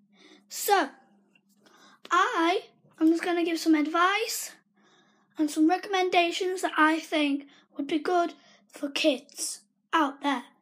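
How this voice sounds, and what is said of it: Strained, barely working voice. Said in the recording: “my voice is kind of not working, so I apologize for how I sound”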